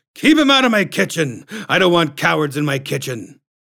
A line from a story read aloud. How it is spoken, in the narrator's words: he shouted up the stairs